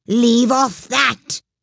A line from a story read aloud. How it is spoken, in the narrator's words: screamed the queen